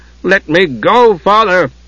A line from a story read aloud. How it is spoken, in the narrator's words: he cried, not realizing what he was saying, not even knowing he was saying it